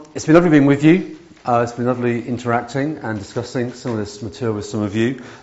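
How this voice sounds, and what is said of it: Loud, slightly failing voice. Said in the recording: “I'm loud this morning. ... My voice is going slightly”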